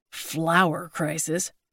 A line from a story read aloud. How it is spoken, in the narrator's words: Larry mumbled